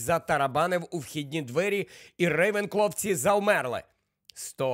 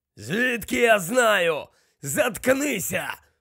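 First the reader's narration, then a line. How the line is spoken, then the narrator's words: Rough growl. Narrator (Ukrainian): прогарчав грубий голос, котрий належав, як зрозумів Гаррі, братові Алекти, Амікусові Керроу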